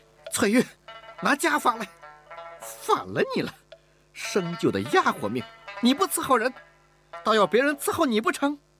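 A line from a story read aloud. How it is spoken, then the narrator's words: Exasperated shout. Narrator (Chinese): 吴雅氏不曾想在小姑娘这儿遇到了麻烦，才忍无可忍地喊道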